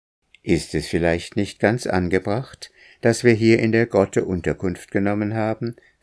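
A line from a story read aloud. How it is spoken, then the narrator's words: Plain. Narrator (German): fragte Akka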